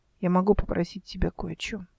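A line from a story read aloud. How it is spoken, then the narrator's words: Quiet. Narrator (Russian): сказала она тихо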